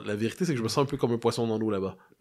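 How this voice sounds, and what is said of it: Recognizable Québécois French accent. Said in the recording (French): “pour certains Québécois, ils se font dire de lisser leur accent ... l'accent, il est reconnaissable. Hein. Eux, ils ont pas l'impression d'entendre un Parisien quand je parle.”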